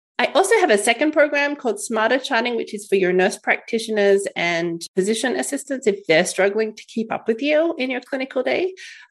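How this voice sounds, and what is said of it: Australian accent. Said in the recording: “I wouldn't have thought the accent was Canadian. ... It isn't. It's Australian”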